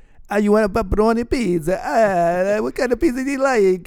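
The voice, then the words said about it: Put-on Italian accent. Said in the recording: “my Italian accent I do sometimes”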